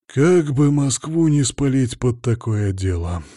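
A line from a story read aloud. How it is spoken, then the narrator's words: Sighing. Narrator (Russian): вздохнул боярин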